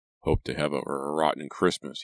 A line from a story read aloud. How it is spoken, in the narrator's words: he muttered